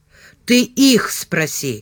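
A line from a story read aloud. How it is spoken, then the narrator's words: Angry reply. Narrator (Russian): зло ответил Ливан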